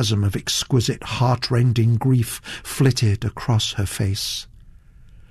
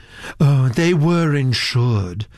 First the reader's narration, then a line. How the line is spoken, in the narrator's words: said Miss Nunn dreamily